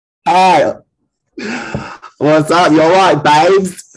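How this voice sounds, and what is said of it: Put-on British accent. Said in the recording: “doing a British accent? ... Is it bad? ... Sure, it's great.”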